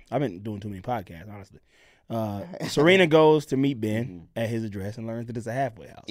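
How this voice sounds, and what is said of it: Hoarse, strained voice. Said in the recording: “my voice is, I'm losing my voice”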